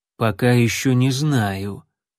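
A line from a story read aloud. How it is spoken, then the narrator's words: Low voice. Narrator (Russian): низким голосом произнес северянин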